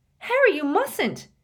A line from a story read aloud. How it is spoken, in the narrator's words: shrieked Hermione